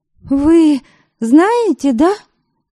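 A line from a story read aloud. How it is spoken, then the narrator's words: Breathless exclamation. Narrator (Russian): Слегка задыхаясь, воскликнула она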